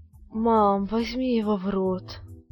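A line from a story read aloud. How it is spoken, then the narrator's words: Moaning. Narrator (Russian): простонал Юра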